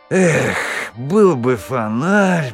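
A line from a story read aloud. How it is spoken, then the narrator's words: Groaning. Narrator (Russian): простонал Томас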